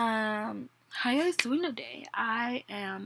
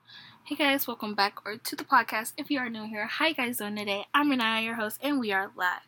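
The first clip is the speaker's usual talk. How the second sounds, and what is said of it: Very fast speech. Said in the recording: “I just said that really fast”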